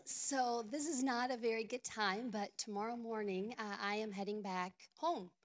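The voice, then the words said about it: Hoarse, weak, nearly lost voice. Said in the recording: “I have lost my voice. ... I wish I had more of a voice”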